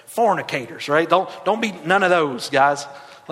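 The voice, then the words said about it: Put-on Southern accent. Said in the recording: “Anytime you say it in Southern accent terms, it's way better.”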